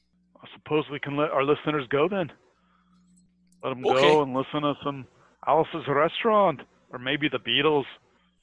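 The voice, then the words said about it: Put-on Beatles-style accent. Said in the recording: “now I'm doing that stupid John Paul accent as perfected by Sam Kinison”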